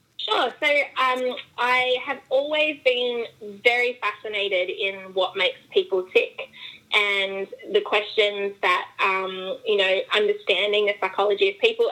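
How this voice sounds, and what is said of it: Australian accent. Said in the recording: “how much I love her accent ... Yes, I am Australian ... understand me with my accent.”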